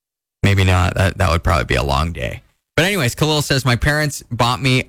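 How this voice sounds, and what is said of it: Usual voice. Nothing is said of it.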